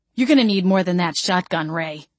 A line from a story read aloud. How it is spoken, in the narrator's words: I growled